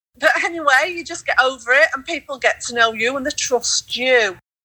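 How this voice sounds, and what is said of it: Yorkshire English accent. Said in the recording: “my Yorkshire accent, which that's me, I'm Yorkshire accent”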